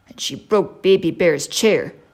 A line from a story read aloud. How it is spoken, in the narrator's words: said Daddy Bear crossly